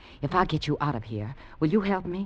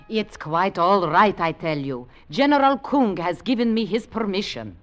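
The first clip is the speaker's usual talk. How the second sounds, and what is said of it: Unconvincing put-on Russian accent. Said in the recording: “What happened to your Russian accent? ... it wasn't a good accent anyway ... you're from Virginia”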